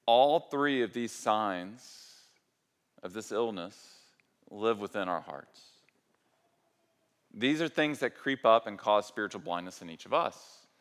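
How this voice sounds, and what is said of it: Southern American accent. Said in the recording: “my accent is so southern”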